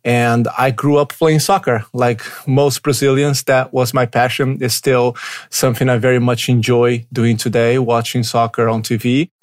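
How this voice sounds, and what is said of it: Brazilian accent. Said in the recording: “my accent is a little bit different. I was born in Brazil.”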